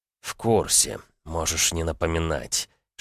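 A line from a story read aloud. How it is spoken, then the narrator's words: Hissed into ear. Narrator (Russian): шипел на ухо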